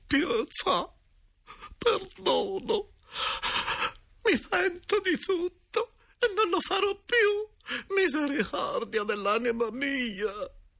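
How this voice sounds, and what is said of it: Faint, weeping mumbled voice. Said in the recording (Italian): “piangeva e ogni tanto borbottava con accento fioco”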